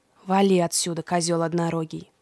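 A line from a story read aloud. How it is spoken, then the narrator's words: Grumbled quietly. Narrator (Russian): проворчал Фавнир, когда Индрик уже не мог его слышать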